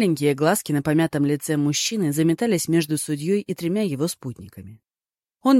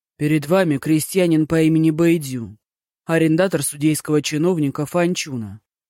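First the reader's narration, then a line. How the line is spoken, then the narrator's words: Grim announcement. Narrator (Russian): мрачно сообщил тот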